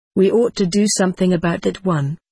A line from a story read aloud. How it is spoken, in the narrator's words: said one boy